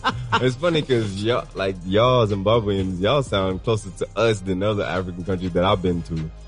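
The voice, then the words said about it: American accent. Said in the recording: “I'm just listening to the accent.”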